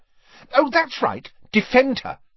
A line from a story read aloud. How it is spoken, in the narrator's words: snapped Ginny